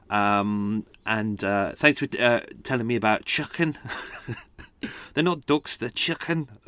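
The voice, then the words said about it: Deliberately bad put-on accent. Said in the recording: “That's probably the worst accent ever, but I tried my best.”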